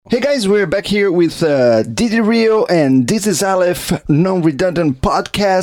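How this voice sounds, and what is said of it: Announcer voice. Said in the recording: “I was using my announcer voice.”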